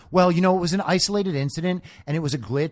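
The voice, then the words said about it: Imitates another person's voice. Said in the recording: “That's my impression of Onyx”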